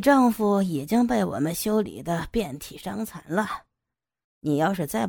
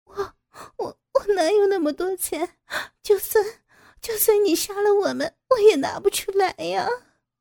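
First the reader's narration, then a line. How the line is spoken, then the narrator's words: Crying. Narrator (Chinese): 傅菊英哭着说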